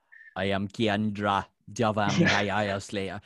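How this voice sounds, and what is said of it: Imitation of Kendra's Caribbean accent. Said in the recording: “Kendra, her like accent was a bit weird ... some sort of Caribbean accent ... that accent ... stereotypical kind of accenting”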